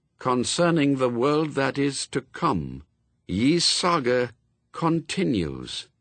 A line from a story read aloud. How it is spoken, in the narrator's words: she read slowly